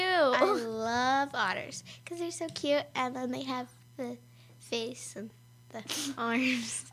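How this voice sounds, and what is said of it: Stuffy, congested voice. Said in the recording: “I have a cold.”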